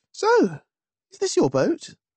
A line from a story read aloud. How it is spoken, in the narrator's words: asked brightly